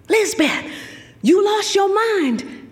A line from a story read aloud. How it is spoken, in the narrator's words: panted Joey